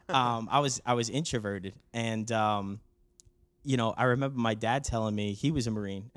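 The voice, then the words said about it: New York accent. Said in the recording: “a New York accent”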